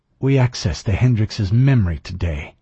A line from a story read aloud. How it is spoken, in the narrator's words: Ortega said coldly